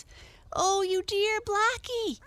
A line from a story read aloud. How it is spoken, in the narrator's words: cried Arthur